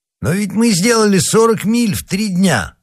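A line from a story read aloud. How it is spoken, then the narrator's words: Exclamation. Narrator (Russian): воскликнул Планше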